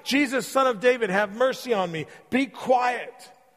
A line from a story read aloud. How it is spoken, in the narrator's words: yelled at him